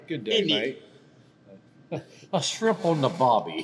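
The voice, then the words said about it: Put-on Australian accent. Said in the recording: “Give your best Australian accent.”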